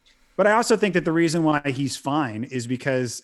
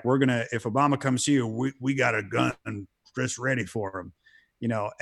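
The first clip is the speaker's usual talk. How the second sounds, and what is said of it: Put-on Southern accent. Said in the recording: “using a Southern accent”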